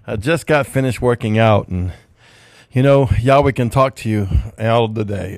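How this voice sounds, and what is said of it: Breathless, winded speech. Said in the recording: “if it sounds like I'm out of breath, it's because I am ... I can barely speak ... I'm almost out of breath”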